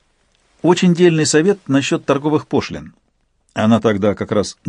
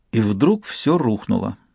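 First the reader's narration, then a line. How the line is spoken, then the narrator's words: Sad. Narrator (Russian): сказала Айвика печально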